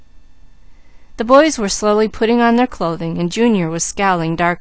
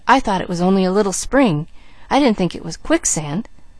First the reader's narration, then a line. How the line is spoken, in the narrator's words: he whispered